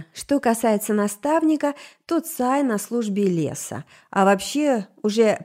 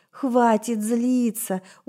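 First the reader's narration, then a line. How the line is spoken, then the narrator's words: Tired self-plea. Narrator (Russian): устало попросила она сама себя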